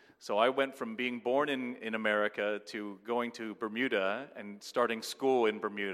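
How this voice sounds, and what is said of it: Usual voice. Nothing is said of it.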